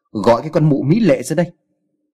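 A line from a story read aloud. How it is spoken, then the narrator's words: Louder shout. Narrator (Vietnamese): Anh ta quát càng to lên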